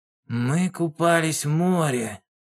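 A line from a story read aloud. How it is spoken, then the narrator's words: Hoarse report. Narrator (Russian): хрипло сообщил он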